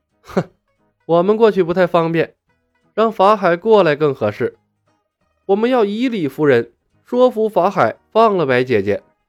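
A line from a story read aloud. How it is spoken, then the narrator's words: Laughing. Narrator (Chinese): 李牧笑道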